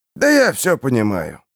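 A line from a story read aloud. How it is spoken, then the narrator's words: Grumbling. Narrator (Russian): проворчал маляр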